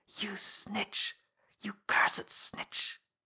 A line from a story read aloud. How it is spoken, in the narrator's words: low whispered words seemed but to accentuate the man's sudden flood of passion